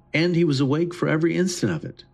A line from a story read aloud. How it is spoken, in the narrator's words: Sarah exclaimed